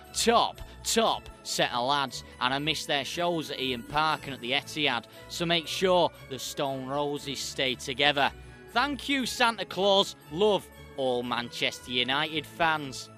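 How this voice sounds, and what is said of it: Put-on Mancunian accent. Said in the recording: “What did you think of my Mancunian accent? Was it any good? It was tragic ... I couldn't even do the Manchester accent ... It was quite a good accent”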